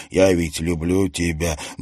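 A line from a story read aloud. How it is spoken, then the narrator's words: Mumbling. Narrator (Russian): бормотал он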